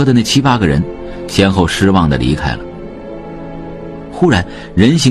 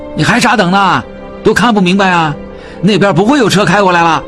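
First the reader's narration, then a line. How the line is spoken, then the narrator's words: Passerby shouting. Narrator (Chinese): 从他们眼前经过的一个人喊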